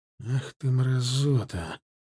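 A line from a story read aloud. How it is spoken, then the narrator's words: Hissed. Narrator (Russian): прошипел я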